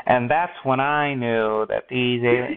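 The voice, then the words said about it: Imitates another person's voice. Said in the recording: “that was my Morgan Freeman impression, which is really bad. It was not good.”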